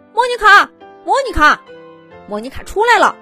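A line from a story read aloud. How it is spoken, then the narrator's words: Excited shouting. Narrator (Chinese): 毛毛和豆豆兴奋的叫着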